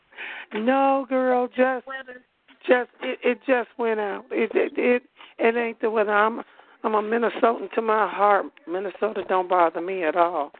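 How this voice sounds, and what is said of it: Hoarse, losing voice. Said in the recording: “forgive my voice though, cause my voice is out ... every year I wind up with something where my voice is going out”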